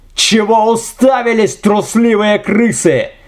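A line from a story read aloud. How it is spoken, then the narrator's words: Screamed. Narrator (Russian): завопил Гаспар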